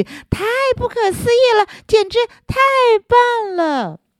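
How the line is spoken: Excited shouting to herself. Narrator (Chinese): 小丽几乎是连喊带叫的在自言自语

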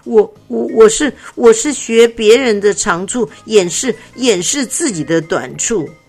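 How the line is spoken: Frightened stammer. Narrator (Chinese): 七成被吓到了，结结巴巴说

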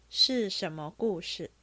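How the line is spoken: Plain. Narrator (Chinese): 贾珍道

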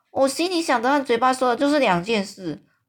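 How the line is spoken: Friendly giant, very loud. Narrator (Chinese): 这个友善的大巨人呢，非常大声的说

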